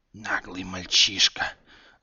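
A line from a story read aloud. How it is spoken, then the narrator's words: Hissing creature. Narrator (Russian): зашипела змеиная морда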